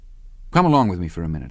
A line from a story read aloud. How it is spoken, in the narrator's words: I said